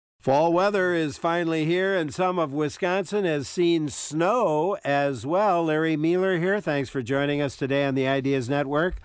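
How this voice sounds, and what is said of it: Hoarse, failing voice. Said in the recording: “I'm losing my voice here suddenly”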